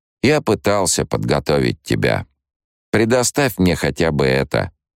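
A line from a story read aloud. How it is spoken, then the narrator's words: Cold, dry. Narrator (Russian): отчужденно и сухо произнес внук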